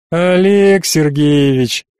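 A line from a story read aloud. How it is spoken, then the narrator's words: Drawl. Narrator (Russian): протянул я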